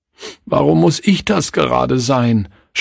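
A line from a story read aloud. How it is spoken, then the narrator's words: Sobbing. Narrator (German): schluchzte Klaus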